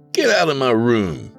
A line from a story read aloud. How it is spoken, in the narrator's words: Broderick exclaimed with an air of excitement